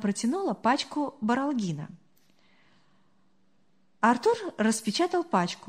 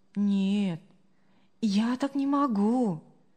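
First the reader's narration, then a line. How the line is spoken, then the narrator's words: Calm. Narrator (Russian): спокойно ответила Мария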